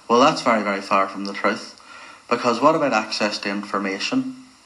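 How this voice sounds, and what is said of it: Northern Irish accent, strong R. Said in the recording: “a Northern Ireland accent ... one of the distinctive things about that Irish accent is the way in which the letter R is emphasised in many words ... talked about first with a strong R”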